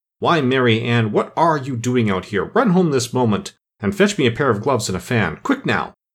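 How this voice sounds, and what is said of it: Angry voice. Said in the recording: “in an angry voice”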